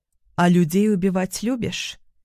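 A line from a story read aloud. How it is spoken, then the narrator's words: Calm inquiry. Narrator (Russian): Спокойно поинтересовалась я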